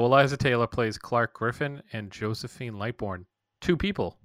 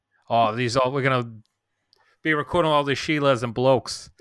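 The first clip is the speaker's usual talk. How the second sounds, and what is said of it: Poor Australian accent mixed with Boston. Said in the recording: “Now you're just Australian ... That was a bad one ... it's like Australia mixed with your Boston accent.”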